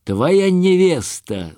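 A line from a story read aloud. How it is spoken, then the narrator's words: Shouting. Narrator (Russian): закричал Пугачев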